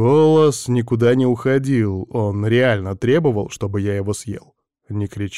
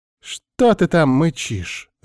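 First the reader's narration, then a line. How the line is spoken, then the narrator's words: Angry. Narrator (Russian): злобно зыркнула сестрица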